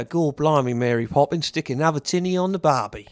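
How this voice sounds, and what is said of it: Dick Van Dyke's Australian-tinged mock Cockney. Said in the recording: “the accent that Dick Van Dyke was supposed to have in Mary Poppins, but we feel as a region that he went to Australia to learn to learn Cockney”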